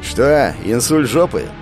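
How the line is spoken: Snorting. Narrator (Russian): хмыкнул морпех

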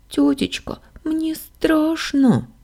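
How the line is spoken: Whimpering. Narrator (Russian): заскулила Сашка

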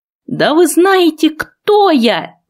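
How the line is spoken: Shrill squeal. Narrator (Russian): взвизгнул

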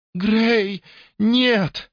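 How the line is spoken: Sobbing. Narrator (Russian): всхлипнула она

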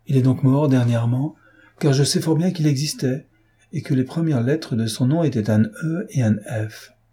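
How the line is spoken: Exclaiming. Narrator (French): s'écria Emma

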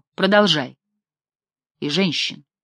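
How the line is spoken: Calm. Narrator (Russian): спокойно сказала Таис

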